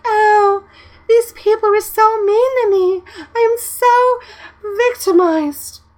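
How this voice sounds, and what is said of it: Imitates a girl's voice. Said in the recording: “Who are you impersonating? It sounds hot. ... my conglomeration of all girls that I have played with in Ark ... all sound like that”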